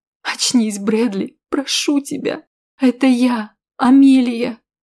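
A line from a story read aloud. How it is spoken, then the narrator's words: Insistent tearful pleading. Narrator (Russian): твердила сквозь слезы я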